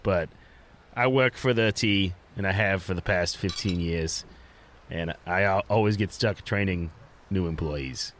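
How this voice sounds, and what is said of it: Put-on French Canadian accent. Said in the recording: “I am from French Canada. And you can tell because I can't say my accent words too good all the time.”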